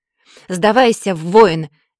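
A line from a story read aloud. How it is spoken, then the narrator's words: Loud shout. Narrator (Russian): громко прокричала я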